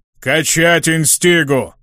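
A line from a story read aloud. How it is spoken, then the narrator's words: Pleased bark through grin. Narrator (Russian): Рявкнул Рокотан Нисрок, скаля почерневшие пластинчатые зубы в довольной улыбке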